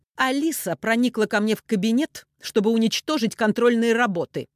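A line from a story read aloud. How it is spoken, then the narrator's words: Sharp reply. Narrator (Russian): резко отозвалась Софья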